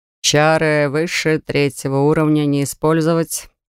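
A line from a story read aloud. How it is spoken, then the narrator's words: Bored tone. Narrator (Russian): скучающим тоном начал Морен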